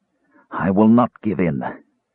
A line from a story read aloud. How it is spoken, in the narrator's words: muttered when he could breathe